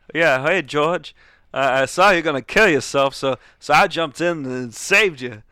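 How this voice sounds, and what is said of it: Impression of John C. Reilly. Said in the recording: “my slightly decent impression of John C. Reilly”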